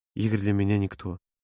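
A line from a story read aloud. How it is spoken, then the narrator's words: Barely controlled whisper. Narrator (Russian): едва владея собой, прошептал Володя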